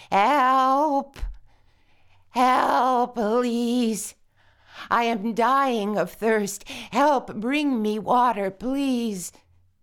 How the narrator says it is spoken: As the sun got hotter moan and cry

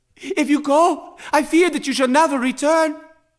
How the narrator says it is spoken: Neve pleaded

